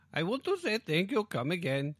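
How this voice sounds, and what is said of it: Weak put-on Indian accent. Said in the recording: “slight Indian accent. Very slight, because it's not a very good one.”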